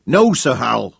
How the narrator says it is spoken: shouted Big Daniel

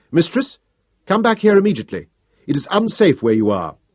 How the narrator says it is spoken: I called sharply

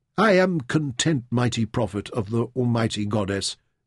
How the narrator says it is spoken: Mintaka whispered

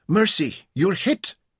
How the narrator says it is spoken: she exclaimed fearfully

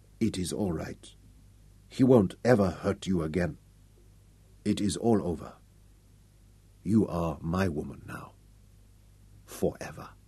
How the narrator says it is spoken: whispered softly

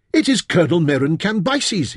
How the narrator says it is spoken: shouted

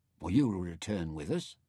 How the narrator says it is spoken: Gil asked anxiously

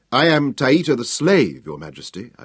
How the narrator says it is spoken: I replied

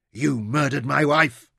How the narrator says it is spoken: Dorian snarled

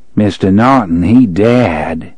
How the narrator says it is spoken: the man in black intoned sardonically

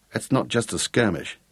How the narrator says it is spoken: muttered Gareth

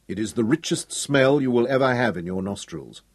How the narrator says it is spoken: Sir Francis spoke loudly enough for the men on the deck below to hear him

